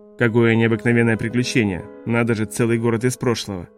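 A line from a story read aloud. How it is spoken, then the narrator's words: Sigh. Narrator (Russian): Вертер вздохнул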